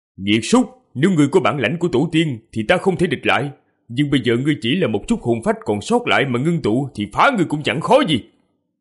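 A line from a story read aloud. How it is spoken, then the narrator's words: Snorting, then shouting. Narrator (Vietnamese): hừ nhẹ một tiếng, quát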